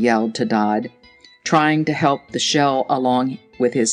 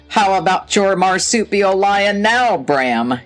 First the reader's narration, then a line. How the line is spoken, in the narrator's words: yelled Dodd